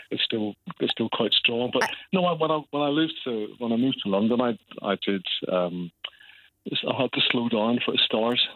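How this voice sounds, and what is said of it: Distinctive Northern Irish accent. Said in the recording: “a hint of a Northern Irish accent ... you've got quite a distinctive Northern Ireland accent”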